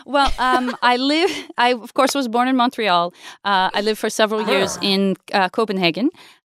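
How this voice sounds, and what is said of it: Hard-to-place foreign accent. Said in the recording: “I can't place the accent”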